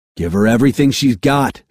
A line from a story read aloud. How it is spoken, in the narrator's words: Tag yelled